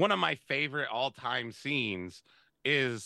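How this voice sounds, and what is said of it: Usual voice. Nothing is said of it.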